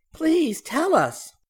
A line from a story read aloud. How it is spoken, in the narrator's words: Barbie pleaded